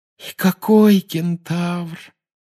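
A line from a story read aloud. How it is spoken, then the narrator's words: Sighed. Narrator (Russian): вздохнула Парвати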